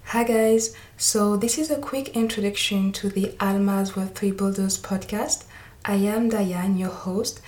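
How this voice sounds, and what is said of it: French accent. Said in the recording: “maybe you can tell by my accent that I am French... you will have to bear with my French accent”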